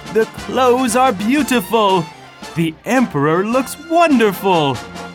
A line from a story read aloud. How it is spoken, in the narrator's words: The people in the streets called out